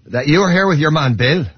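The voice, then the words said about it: Poorly done put-on accent. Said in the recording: “that was a terrible accent”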